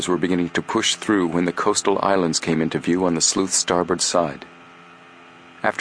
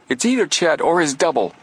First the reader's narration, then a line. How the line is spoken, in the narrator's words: Joe exclaimed